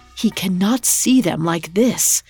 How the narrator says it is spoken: heard her whisper frantically

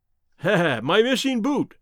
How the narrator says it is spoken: cried

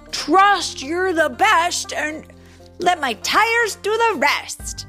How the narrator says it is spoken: shouted as she whipped through the turn at top speed

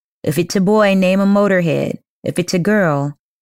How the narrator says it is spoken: he called out

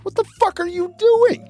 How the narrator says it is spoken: She screams from across the room

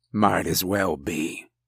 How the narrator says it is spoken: he muttered

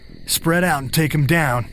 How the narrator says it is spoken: you shout

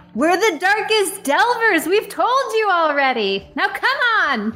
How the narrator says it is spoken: <laughs> And in uh, Dwarvish, will yell back

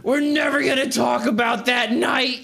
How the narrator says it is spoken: he just yells, he says

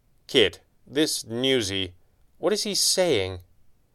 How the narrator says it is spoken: She sighed

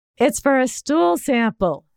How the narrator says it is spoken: she said loudly

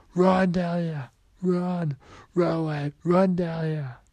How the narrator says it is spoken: He began to yell

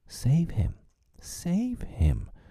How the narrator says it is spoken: cried Wendy, looking with horror at the cruel sea far below

